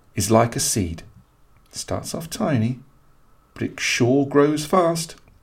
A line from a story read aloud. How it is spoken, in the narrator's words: said softly